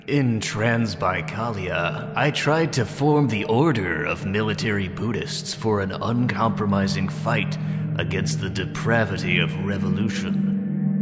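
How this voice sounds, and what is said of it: Scary voice. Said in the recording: “scary voice. How about a scary voice? ... Let me mark for scary voice.”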